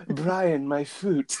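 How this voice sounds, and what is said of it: Weird put-on accent. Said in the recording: “your weird accent”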